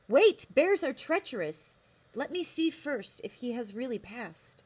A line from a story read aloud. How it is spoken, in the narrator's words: Ashlak, running in the sound of the shot, called out